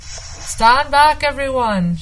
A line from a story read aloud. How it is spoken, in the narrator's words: shouted the fisherman called Willie